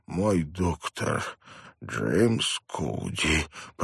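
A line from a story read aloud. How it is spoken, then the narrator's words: Hoarse croak. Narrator (Russian): прохрипел он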